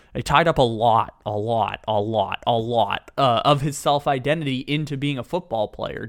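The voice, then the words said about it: Imitates another person's voice. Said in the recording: “I'm going to try and do the Andrew Luck impersonation ... I can do a little bit of an Andrew Luck”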